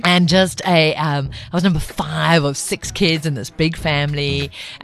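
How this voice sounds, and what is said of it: Mixed, hard-to-place South African accent. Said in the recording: “I know my accent doesn't sound like it, but I'm actually a Zulu chick ... my accent's all over the place”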